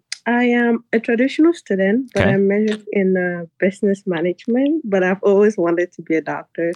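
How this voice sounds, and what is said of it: Rough, strained voice. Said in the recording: “Sorry for my voice. I'm a bit cranky. I'm dealing with allergies.”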